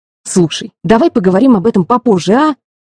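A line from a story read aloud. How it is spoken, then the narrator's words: Snapped. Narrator (Russian): огрызнулась я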